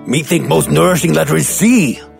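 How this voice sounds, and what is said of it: Cookie Monster character voice. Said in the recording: “Cookie Monster impersonations”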